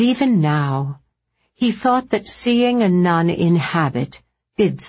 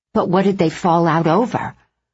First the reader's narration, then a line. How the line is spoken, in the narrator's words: Bridget said